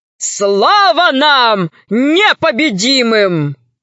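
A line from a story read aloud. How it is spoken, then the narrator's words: Triumphant shout. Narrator (Russian): закричал он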